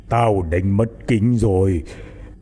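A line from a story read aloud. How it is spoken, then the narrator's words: Old man growling. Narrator (Vietnamese): Lão Tâm gầm gừ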